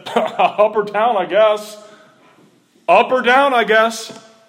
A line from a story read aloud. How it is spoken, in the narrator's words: while he was laughing, he said